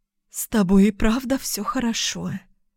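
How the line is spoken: Trembling, breathy. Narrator (Russian): выдохнула она с дрожью в голосе

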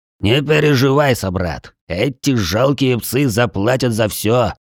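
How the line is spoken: Angry growl. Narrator (Russian): не сдерживая злости, прорычал Туар

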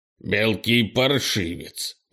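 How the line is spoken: Angry growl. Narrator (Russian): прорычал Крис, разозлившись

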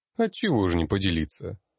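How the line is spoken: Calm. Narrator (Russian): спокойно произнес

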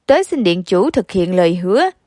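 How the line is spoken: Loud, scornful smile. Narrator (Vietnamese): Mạnh Phù Dao mỉm cười khinh bỉ, lớn tiếng nói

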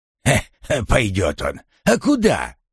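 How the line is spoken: Good-natured snapping, forest spirit. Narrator (Russian): беззлобно огрызнулся леший

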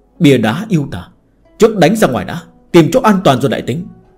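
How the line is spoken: Deep-voiced shout. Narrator (Vietnamese): Trầm giọng quát

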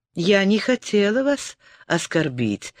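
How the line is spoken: Plain. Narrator (Russian): сказала Лиана

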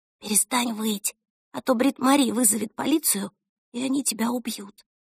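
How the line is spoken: Whisper through mail slot. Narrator (Russian): прошептала она в щель для почты

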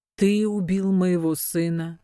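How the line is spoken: Old man, chillingly calm. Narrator (Russian): спросил седой господин таким спокойным голосом, который прозвучал страшнее, чем выстрел пистолета

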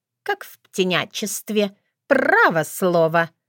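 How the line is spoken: Laughing inner thought. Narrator (Russian): мысленно рассмеялась

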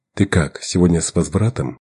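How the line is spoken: Plain. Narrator (Russian): спросил он

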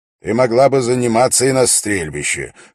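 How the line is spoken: Amused snort. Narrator (Russian): хмыкнул Дункан

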